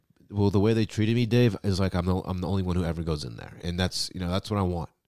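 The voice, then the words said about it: Sick, unwell-sounding voice. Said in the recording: “as you can probably tell by my voice, I don't feel well”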